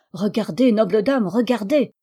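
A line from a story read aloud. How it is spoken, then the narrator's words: Exclaiming. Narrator (French): s'écria maître Bibrel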